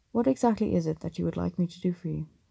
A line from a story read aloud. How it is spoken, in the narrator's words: Strike asked